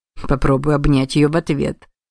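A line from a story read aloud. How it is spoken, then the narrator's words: Amused snort. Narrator (Russian): хмыкнул Кицуне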